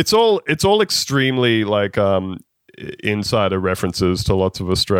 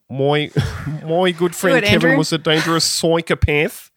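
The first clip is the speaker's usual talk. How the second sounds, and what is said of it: Exaggerated bogan Australian accent. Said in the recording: “in like phonetic, bad, bogan Australian accent”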